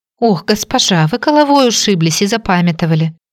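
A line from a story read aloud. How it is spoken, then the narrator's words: Exclaimed, young girl. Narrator (Russian): воскликнула девчушка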